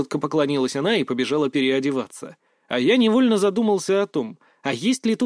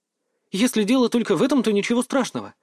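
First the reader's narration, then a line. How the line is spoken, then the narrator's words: Gentle, smiling. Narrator (Russian): мягко улыбнулась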